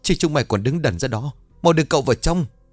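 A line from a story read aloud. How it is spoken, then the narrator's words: Tearful shouting. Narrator (Vietnamese): Đoàn bà quát bằng giọng mếu máo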